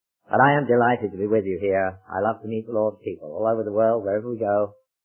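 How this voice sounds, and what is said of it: English accent. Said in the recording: “you can tell by my accent, or some people call it an accident, that I really come from the old country, from England.”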